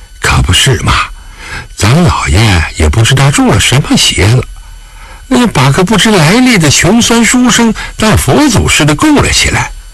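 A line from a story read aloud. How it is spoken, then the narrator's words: Sighing muttered complaint. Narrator (Chinese): 狄春闻言不觉叹口气，凑到沈怀耳边低声抱怨道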